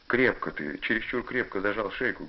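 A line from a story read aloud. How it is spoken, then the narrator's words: Plain. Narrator (Russian): говорит отец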